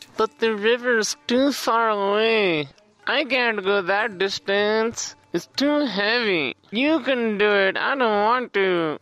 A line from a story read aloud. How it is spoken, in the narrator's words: children, they whined